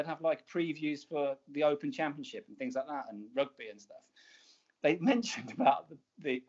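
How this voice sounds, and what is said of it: Usual voice. Nothing is said of it.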